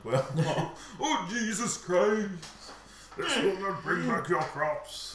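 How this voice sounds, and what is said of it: Imitates another person's voice. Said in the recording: “my Equalizer impression”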